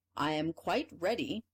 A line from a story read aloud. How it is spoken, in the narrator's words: answered the emperor